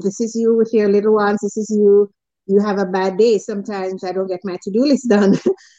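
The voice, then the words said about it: Speaks with a noticeable accent. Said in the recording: “are you going to understand what I'm saying because of my accent”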